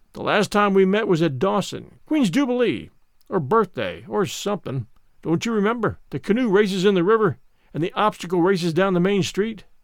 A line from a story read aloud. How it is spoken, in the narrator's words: His face showed desperate, for all his voice sounded hearty and genial, as he said